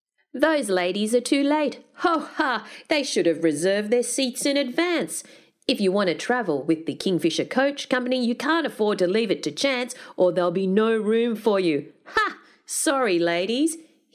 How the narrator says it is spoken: he bellowed suddenly

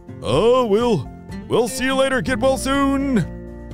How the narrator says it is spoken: Easton shouted

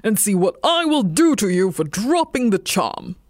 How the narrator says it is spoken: growled

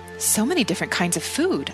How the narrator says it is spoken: I exclaimed

